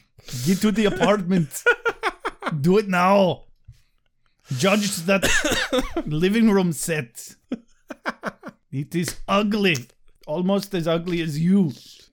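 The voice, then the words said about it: Put-on Austrian accent. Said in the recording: “I can't do the Austrian accent for very long before it just falls apart.”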